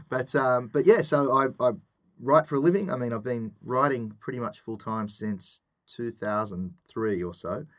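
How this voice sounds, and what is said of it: Australian accent. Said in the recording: “as you can tell from the blatantly obvious accent, I'm from Australia”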